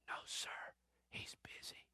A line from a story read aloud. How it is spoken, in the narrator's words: The boy whispers